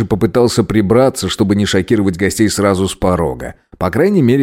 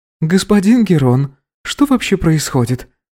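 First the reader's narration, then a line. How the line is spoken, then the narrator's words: Less timid question. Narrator (Russian): Спрашивает уже не так робко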